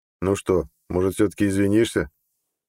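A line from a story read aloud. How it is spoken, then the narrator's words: Bored tone. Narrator (Russian): Скучающим тоном спросил Нед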